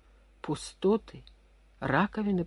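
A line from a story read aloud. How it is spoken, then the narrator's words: Muttered. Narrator (Russian): пробормотал он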